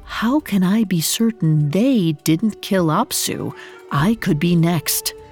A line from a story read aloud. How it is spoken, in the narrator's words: She whispered